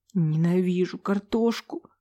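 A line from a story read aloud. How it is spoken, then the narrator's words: Sniffling whisper. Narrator (Russian): Шмыгнув носом, прошептала я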